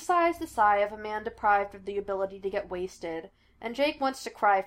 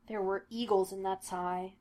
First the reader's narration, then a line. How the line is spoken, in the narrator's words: Gina murmurs, reverential